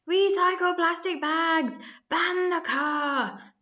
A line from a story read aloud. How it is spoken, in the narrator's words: they bellowed to surprised passers-by